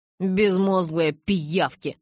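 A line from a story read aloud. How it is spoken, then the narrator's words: Angry muttering, snort. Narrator (Russian): пробурчал он в сердцах себе под нос и фыркнул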